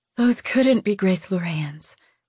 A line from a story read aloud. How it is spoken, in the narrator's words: Lou breathed